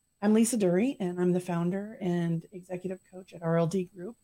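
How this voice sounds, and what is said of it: Slightly raspy voice. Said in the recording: “my throat is raspy a bit”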